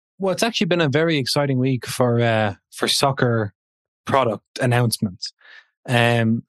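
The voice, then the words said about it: Monotone, joyless voice. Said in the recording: “he goes in the most monotone, joyless voice I've ever heard ... excitement in his words, but not his tone”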